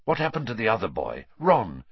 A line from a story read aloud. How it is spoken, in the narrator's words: said Sirius urgently